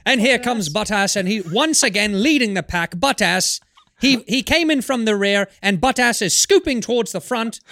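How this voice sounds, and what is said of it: Mock British race announcer accent. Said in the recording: “pronounced in a British accent ... the announcers just never do him any favors. They're like, and Bottas rounds the corner ... something about when a British person says”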